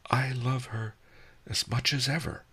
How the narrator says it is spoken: I sighed

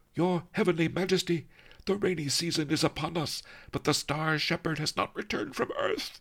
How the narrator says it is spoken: he wailed

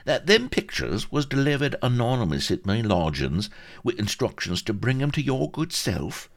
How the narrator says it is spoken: asked Vladimir Mackintosh Grunbaum earnestly

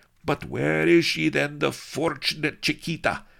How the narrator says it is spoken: he demanded eagerly

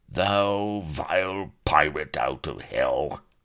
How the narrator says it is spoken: growled he

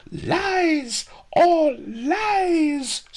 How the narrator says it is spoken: screamed pawnbroker Fang

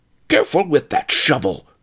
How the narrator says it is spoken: yelped Ma the Grub, leaping back in fear

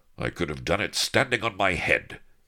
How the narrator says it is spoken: he snapped

